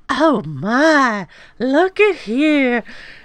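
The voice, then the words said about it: Imitated Southern accent, Andie MacDowell. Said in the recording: “she has such a good Southern accent ... she does a perfect like”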